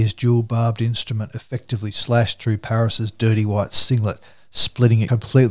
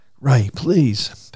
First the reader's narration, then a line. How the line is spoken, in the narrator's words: Paris pleaded